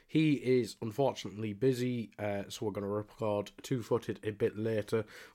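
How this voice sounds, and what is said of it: Sick, congested-sounding voice. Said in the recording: “I am got a bit of a cold”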